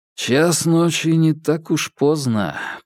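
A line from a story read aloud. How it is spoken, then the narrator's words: Drawn-out drawl. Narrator (Russian): протянул Феликс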